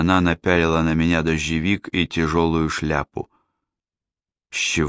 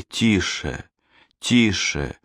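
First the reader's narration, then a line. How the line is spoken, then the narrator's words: Pleading. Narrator (Russian): умоляла Диана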